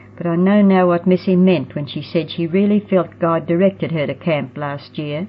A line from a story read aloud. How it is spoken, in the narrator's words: Roxy mumbled into her pillow